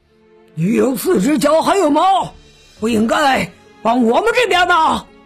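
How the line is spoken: Roaring. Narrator (Chinese): 狮子大王大吼道

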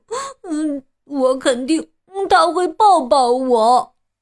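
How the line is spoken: Sobbing. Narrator (Chinese): 秋秋抽泣着说

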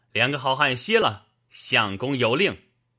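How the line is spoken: Calling out. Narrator (Chinese): 棋牌官叫道

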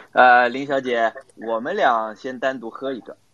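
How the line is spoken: Smiling. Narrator (Chinese): 陆总笑笑讲

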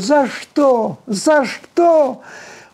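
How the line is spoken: Shouting. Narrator (Russian): как он кричал

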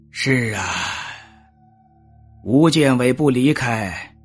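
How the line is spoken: Sighing realization. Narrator (Chinese): 司马子建也恍然大悟，他叹了口气说

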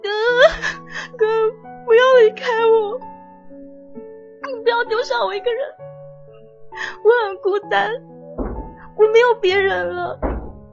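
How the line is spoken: Bitter sobbing. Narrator (Chinese): 痛哭

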